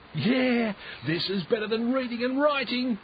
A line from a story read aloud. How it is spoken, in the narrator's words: he yelled back